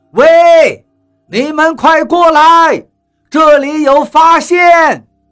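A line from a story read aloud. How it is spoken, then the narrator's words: Distant shout. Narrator (Chinese): 雷森在石山的脚下冲我们喊道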